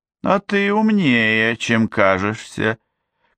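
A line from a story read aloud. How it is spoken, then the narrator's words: Flirtatious drawl. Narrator (Russian): кокетливо протянула Дороти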